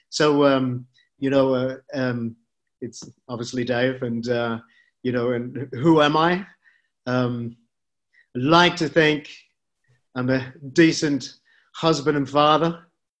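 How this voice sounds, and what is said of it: Distinctive recognizable accent. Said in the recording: “people will recognize you from your accent”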